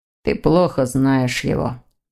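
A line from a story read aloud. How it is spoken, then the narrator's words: Grumbling young man. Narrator (Russian): проворчал молодой человек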